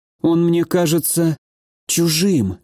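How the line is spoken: Trembling voice. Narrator (Russian): дрогнувшим голосом ответила

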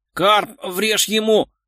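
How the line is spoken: Hoarse wheeze. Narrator (Russian): хрипел светловолосый

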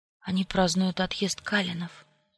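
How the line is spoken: Whisper. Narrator (Russian): прошептала я

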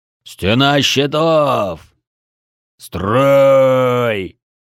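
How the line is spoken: Beastly roar. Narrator (Russian): проревел звероподобный Бедвар

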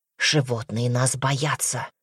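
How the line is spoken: Angry whisper. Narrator (Russian): злобно прошептал он

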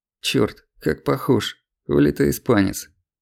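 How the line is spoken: Aged sergeant muttering. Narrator (Russian): пробормотал постаревший старшина запаса Мишка Нелюдов

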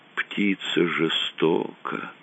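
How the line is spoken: Heavy-sighing whisper. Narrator (Russian): Тяжело вздохнув, она прошептала

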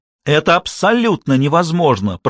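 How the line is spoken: Shout. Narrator (Russian): прокричала Шарлотта

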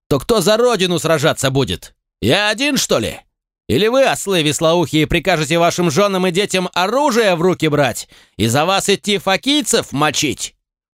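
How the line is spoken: Indignant sergeant yelling. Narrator (Russian): возмущенно орал сержант-инструктор

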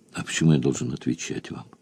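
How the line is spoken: Calm, unchallenging question. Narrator (Russian): спросил спокойно, без вызова

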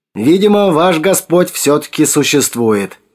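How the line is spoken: Cheerful. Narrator (Russian): весело сказал он

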